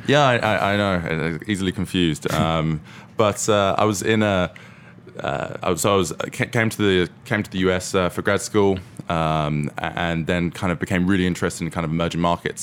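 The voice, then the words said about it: British accent. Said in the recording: “As you can probably tell by the accent, originally from the UK ... I thought you were from New York.”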